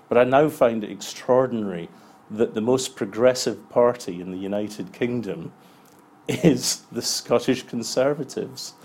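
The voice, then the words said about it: Scottish accent. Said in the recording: “you can tell by my accent that I'm a Scot”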